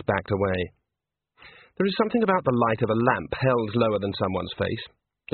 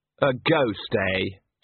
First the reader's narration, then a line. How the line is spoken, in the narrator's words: said Andre sarcastically